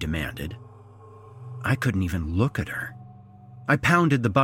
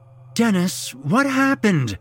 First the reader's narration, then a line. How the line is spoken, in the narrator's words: she pleaded